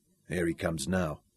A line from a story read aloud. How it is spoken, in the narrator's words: Sean murmured